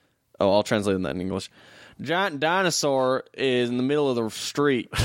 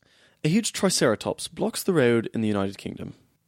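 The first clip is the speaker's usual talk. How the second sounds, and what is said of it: Put-on British accent. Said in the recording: “I'll do it in a British accent.”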